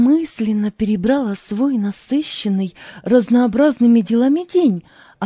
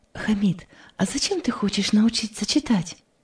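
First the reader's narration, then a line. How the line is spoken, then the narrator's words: Plain. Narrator (Russian): спросила сестра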